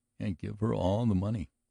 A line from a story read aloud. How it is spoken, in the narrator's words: vowed Tony faintly